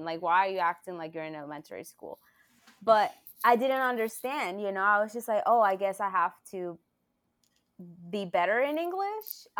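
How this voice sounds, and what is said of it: Non-native English accent. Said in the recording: “I had an accent... this is my English. This is my accent... I just have an accent.”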